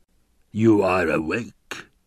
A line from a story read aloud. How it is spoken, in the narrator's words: rumbled a basso voice